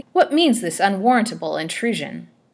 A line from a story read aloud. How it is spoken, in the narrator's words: she cried angrily